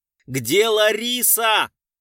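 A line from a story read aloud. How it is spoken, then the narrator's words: Desperate shout. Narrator (Russian): в отчаянии закричал Гуров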